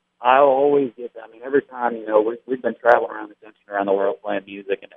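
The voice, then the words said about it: Thick American regional accent. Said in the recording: “you've got a thick accent ... why do you talk the way you do?”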